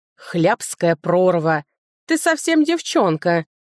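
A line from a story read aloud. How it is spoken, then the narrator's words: Man grunting. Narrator (Russian): Мужчина хмыкнул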